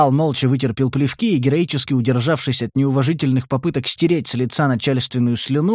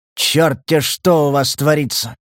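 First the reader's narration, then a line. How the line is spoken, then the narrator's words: Subdued hiss. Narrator (Russian): С заметно меньшим возбуждением прошипел Буров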